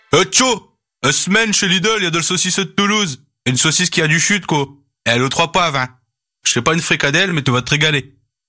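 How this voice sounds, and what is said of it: Northern French accent. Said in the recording (French): “avec un accent du Nord”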